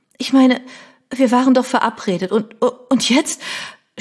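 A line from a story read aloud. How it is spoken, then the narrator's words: Stammering. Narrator (German): stotterte sie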